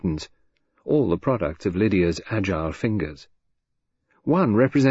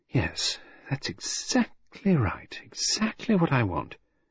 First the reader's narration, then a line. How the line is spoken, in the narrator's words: Lydia was murmuring to herself